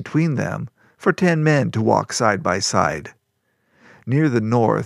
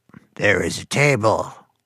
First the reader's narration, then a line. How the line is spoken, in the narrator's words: their guide said, his voice reminiscent of bullfrogs in the swamps around their home